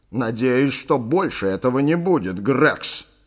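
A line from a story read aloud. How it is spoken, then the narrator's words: Stern. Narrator (Russian): строго сказал сэр Чарльз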